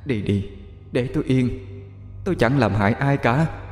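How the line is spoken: Gentle voice. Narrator (Vietnamese): Một tiếng nói nhẹ nhàng cất lên

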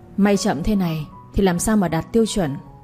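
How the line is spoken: Cold voice. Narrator (Vietnamese): một giọng nói lạnh lùng cất lên

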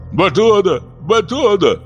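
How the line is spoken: Servants groaning. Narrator (Russian): стонали мсахури

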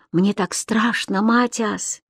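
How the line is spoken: Whispered. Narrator (Russian): я прошептал ему

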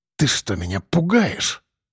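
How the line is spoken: Hiss. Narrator (Russian): прошипел тот

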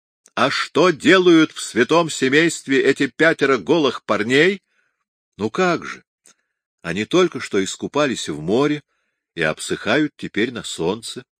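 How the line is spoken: Calm. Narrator (Russian): спокойно ответил Микеланджело

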